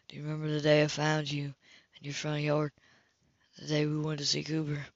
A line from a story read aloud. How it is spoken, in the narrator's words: Grace called quietly